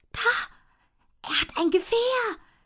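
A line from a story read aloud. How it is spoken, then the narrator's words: Excited whisper. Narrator (German): wispert Jella aufgeregt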